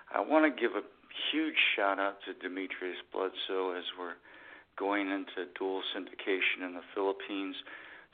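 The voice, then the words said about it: Sick, weak voice. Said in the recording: “I'm still under the weather, so my voice is going to be going in and out tonight”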